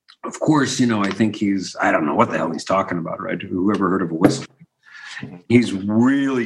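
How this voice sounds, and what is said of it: Usual voice. Nothing is said of it.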